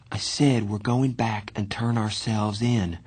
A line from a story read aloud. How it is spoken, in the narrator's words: Johnny repeated in a quiet voice